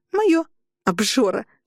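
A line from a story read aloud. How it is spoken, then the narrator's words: Snorting. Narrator (Russian): фыркнула Лина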